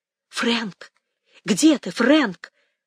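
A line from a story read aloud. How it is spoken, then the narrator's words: Loud whisper. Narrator (Russian): позвала она громким шепотом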